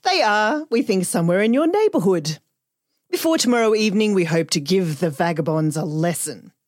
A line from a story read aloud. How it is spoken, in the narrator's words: concluded the sergeant cheerfully